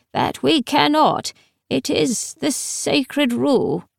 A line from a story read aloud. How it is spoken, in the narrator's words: said sadly